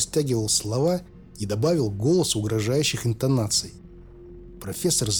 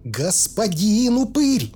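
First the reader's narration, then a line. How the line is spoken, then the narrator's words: Shrill squeal. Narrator (Russian): взвизгнул он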